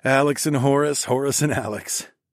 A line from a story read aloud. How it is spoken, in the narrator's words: I chuckled to myself